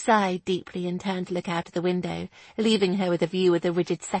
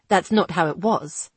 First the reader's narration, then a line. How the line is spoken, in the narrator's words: he replied stiffly